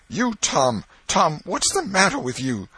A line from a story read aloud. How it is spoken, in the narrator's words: she gasped out